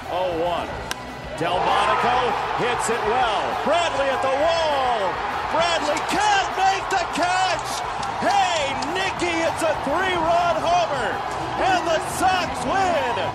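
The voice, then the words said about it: Giant booming announcer voice. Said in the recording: “his impression of Russ Matera, our usual production guy. Giant voice, giant voice.”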